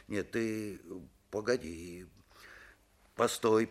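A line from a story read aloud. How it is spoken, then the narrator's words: Muttered. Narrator (Russian): пробормотал он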